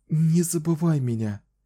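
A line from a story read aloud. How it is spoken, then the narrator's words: Whisper. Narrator (Russian): прошептала она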